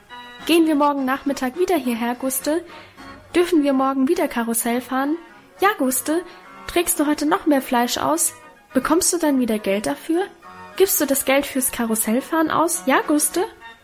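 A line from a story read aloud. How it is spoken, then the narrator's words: Excited overlapping chatter. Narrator (German): So schwatzten wir aufgeregt durcheinander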